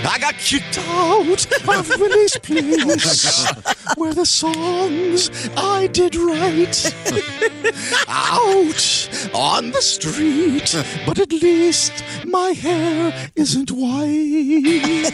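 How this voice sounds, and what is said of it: Singing in falsetto. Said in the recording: “I love the falsetto.”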